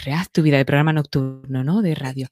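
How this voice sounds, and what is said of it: Sexy late-night radio voice. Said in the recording (Spanish): “hay que poner voz sexy para decirlo”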